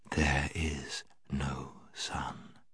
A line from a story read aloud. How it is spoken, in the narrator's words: She repeated, in a softer and deeper voice